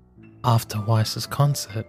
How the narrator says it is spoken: Jean whispered

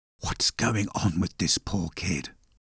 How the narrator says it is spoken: Torsten whispered

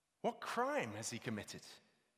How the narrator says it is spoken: asked Pilate

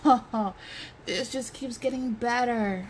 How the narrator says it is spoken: Zink groans

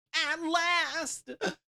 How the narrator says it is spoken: the little man yelled

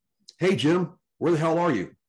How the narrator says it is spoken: he called out

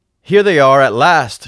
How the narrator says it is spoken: she cried

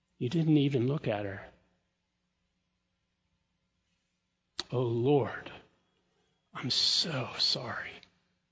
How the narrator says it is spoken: he said it again, more gently

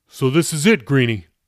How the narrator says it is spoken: he asked

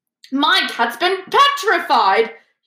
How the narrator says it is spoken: he shrieked

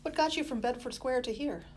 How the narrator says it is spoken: Ben sighed

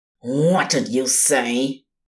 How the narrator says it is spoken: Ligger snarled

